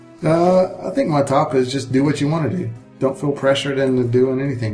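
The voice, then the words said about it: Noticeable regional accent. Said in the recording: “The accent comes out.”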